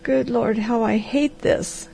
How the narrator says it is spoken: groaned the harvester

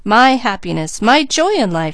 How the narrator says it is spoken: she exclaimed

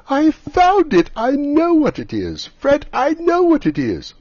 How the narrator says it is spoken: At last the plump sister, falling into a similar state, cried out

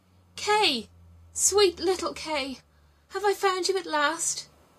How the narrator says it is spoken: She recognized him, cried out

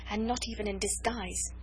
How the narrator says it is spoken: she murmured

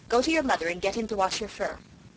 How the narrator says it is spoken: told Goldie sternly

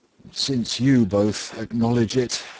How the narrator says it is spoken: sighed Socrates

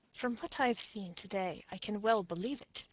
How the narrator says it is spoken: said Mr

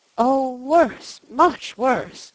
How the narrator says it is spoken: moaned Mrs

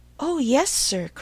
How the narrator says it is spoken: cried with ready sympathy

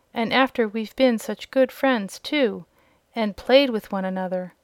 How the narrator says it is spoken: exclaimed a piglet

